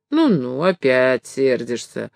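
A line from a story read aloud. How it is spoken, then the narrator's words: Grumbling old woman. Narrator (Russian): ворчала старушка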